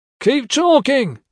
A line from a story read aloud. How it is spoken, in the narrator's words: he yelled